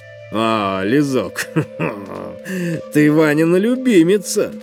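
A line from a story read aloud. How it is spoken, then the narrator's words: Laughing. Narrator (Russian): засмеялся Макс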